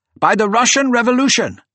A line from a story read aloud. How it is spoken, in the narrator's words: shouted